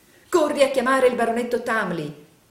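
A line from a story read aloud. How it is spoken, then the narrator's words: Angry exclamation. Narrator (Italian): esclamò, minacciando coi due pugni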